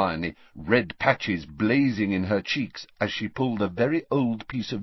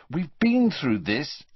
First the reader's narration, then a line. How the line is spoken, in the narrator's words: said Harry crossly